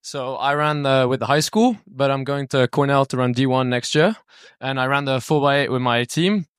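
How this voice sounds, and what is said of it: British English accent. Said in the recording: “I'm from England. So I'm very British. ... I was trying to work out that accent. ... Yeah, the accent's pretty tough.”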